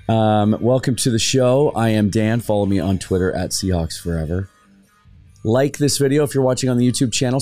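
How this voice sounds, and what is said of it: Slightly rough, hoarse voice. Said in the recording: “Voice is a little rough ... a little bit degraded the day after a game”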